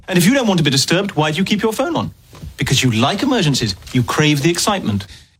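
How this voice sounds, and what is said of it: Real British accent. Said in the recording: “is this a real British accent or fake? ... It is actually real.”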